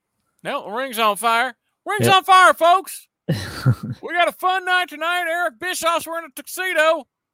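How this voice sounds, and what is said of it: Jim Ross commentator impression. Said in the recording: “Mike does Jim Ross's face when he does his impersonation. He goes full in. ... I can't make it sound like him”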